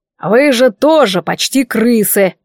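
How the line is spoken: Grumbling, teary. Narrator (Russian): проворчал, вытирая слезящиеся глаза

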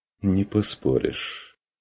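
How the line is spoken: Quiet agreement. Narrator (Russian): тихо согласился фон Вегерхоф

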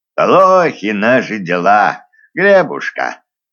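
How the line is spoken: Gloomy old man. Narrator (Russian): уныло признал старый чародей

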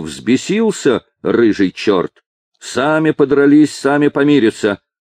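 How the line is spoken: Shouting. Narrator (Russian): Мачеха кричала

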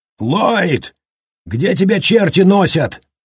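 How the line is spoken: Yelling. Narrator (Russian): заорал

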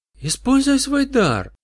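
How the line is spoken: Sudden heated exclamation. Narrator (Russian): с неожиданной горячностью воскликнула сладкая отрава

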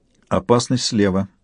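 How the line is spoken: Quiet. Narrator (Russian): негромко сказала Яна

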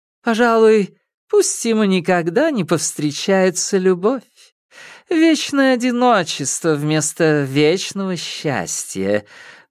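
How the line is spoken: Laughing. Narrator (Russian): Марена рассмеялась

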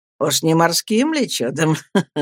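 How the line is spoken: Laughing. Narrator (Russian): рассмеялся Стирфорд

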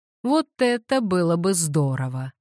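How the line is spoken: Laughing. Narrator (Russian): рассмеялся Уэстон

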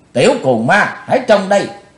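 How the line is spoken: Shouted. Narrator (Vietnamese): Quát dứt thì Bạch Phát Ma Cơ

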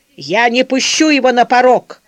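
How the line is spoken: Shouting. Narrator (Russian): закричал с дивана Константин Артемьевич

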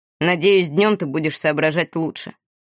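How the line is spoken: Grumbling. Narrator (Russian): проворчал Этьен

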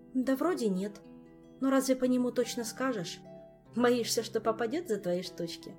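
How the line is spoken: Sighing. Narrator (Russian): Мафей вздохнул

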